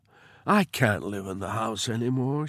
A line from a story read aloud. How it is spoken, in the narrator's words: she said